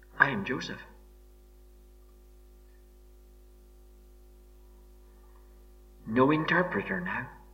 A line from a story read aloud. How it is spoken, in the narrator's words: quietly he turns to these terrified men and says